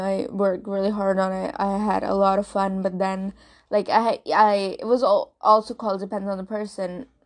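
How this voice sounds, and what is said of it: Non-native English accent. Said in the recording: “I talk in this accent, air quotes ... this is not what, like, my original accent ... I'm not a native English speaker”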